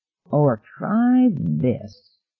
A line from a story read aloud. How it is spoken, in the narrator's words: Wright said dreamily